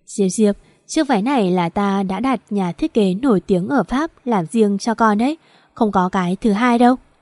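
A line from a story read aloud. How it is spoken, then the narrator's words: Smiling. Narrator (Vietnamese): Chu Tử Lan mỉm cười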